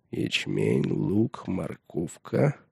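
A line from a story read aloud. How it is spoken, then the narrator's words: Muttered. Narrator (Russian): пробормотал он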